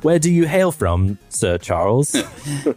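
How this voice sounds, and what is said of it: Put-on British accent drifting Australian. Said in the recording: “You sound like you're from London... Your accent seems to float a bit in and out from Australian to English.”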